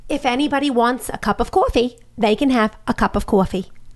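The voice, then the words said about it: High-pitched heavy New York accent. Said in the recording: “Here's how Michael Blinderman talked. ... Very high-pitched and had the worst New York accent of any person.”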